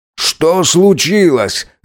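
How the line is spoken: Shout. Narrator (Russian): закричал Мирза

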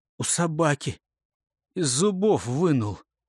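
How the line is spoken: Moaning, then sobbing. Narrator (Russian): простонал и разревелся

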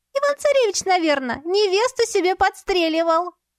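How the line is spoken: Cheerful reply. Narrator (Russian): весело отозвался Фель

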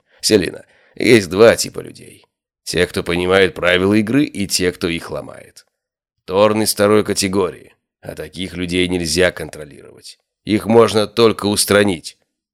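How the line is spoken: Grim. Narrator (Russian): закончил, мрачно

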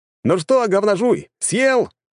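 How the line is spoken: Shouted. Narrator (Russian): крикнул

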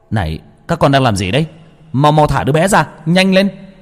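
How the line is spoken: Shout after a breath. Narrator (Vietnamese): Tôi lấy hơi mà hét lên

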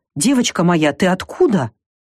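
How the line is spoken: Exclaimed. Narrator (Russian): Фрея Грета воскликнула

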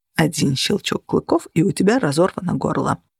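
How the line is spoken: Muttered. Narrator (Russian): пробормотал он

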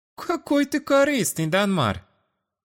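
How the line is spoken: Charming flirtatious giggle. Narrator (Russian): обворожительно хихикнула она, включая на полную мощность свои женские чары

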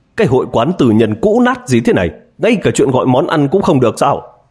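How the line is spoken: Somewhat angry shout. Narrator (Vietnamese): có hơi tức giận, lúc này hét lên

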